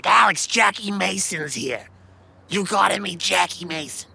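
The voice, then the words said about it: Raspy imitated man's voice. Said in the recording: “he had this raspy voice. It was so funny.”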